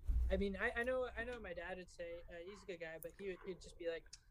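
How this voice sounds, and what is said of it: Usual voice. Nothing is said of it.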